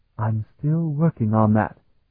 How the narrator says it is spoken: Barrett whispered back

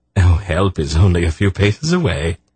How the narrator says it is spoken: he laughed

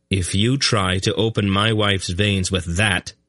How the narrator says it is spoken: the young king declared firmly

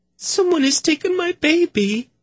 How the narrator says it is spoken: Zinedra cried

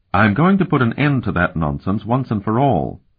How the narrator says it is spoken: Elana said firmly

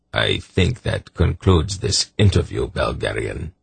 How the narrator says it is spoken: the Emperor said coldly

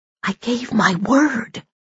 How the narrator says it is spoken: she whispered

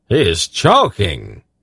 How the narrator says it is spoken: the king cried out

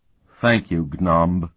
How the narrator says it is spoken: Sparhawk murmured

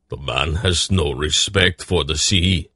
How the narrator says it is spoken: Barak grumbled

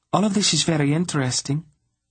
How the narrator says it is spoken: Sinedra interrupted them coolly

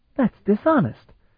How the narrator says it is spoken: Talon exclaimed

